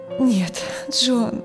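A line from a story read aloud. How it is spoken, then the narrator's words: Tired. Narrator (Russian): устало сказала Дженнифер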